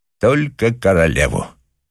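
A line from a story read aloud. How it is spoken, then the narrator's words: Solemn. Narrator (Russian): торжественно отвечал англичанин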